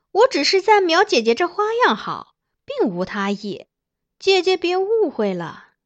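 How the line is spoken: Smiling. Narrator (Chinese): 张贵妃扬笑道

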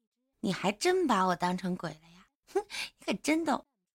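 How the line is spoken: Coquettish laughing. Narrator (Chinese): 葛玉娇笑着说

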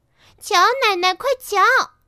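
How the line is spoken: Children shouting. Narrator (Chinese): 孩子们叫道

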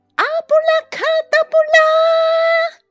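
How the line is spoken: Loud incantation shout. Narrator (Chinese): 大喊一声

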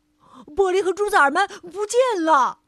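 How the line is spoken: Loud shout. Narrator (Chinese): 他大叫

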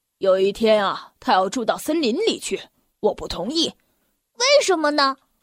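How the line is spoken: Cold. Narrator (Chinese): 爸爸冷冷地说

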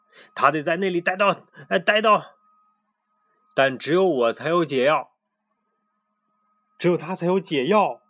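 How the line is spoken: Shout. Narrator (Chinese): 他喊道

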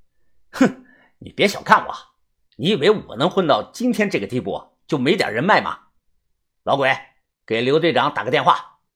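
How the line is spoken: Cold. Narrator (Chinese): 李康阳 冷冷的说道

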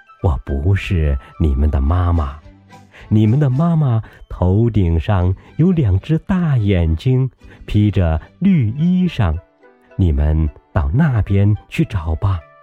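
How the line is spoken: Turtle laughing. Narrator (Chinese): 乌龟笑着说

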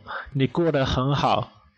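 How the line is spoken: Laughing. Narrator (Chinese): 我笑着说

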